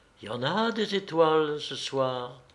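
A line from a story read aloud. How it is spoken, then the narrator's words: Sighed. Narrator (French): soupira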